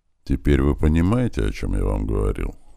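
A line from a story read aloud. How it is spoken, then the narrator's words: Sigh. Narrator (Russian): Снова вздохнул этот боец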